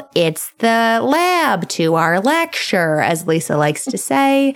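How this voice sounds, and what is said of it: Strong put-on Midwestern accent. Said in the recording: “that was a very Midwestern accent you put on that.”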